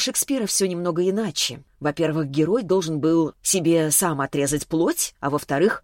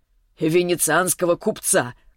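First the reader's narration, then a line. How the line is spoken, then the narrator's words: Snorting remark. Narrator (Russian): хмыкнул Селиванов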